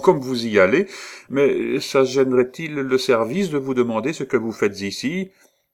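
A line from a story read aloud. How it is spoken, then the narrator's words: Laughing repetition. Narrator (French): répéta Thérèse en riant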